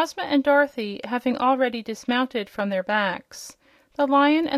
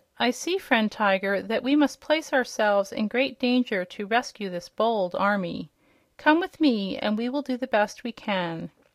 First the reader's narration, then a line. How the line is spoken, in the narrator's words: sighed the Cowardly Lion